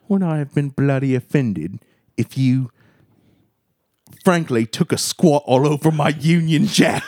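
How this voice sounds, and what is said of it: Put-on British accent. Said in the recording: “attempted some kind of British accent”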